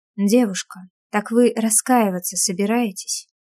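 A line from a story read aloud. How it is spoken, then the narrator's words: Soft menacing whisper. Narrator (Russian): Опасно, но мягко шепчу я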